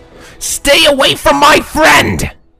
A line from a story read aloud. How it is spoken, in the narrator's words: Rainbow shouted in anger